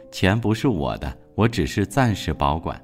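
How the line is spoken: Calm, indifferent. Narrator (Chinese): 周润发只是淡淡的回应

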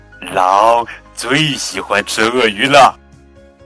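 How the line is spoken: Low voice. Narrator (Chinese): 丽塔低声说

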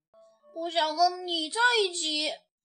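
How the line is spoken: Fierce roar. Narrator (Chinese): 阿瑟凶巴巴地吼了一声

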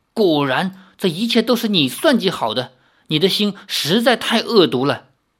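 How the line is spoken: Trembling voice. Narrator (Chinese): 颤声道

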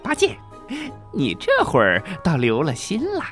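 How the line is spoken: Laughing. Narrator (Chinese): 孙悟空笑着说

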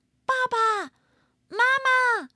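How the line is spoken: Repeated calling. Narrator (Chinese): 他不断的叫啊叫啊

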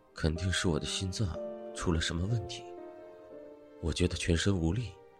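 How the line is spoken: Murmuring. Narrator (Chinese): 他喃喃的说道

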